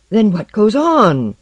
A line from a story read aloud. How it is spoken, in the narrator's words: Barry roared